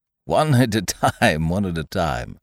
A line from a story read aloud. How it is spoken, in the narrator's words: laughed Dr